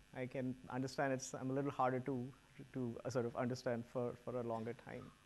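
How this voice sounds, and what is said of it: Noticeable accent, somewhat hard to follow. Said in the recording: “If my accent is not very clear, then I'll try to go a little slower as well”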